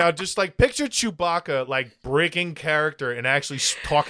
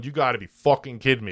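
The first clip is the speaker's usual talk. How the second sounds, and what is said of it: Put-on Brooklyn accent. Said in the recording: “with a Brooklyn accent”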